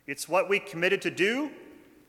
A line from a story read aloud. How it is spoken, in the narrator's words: said someone else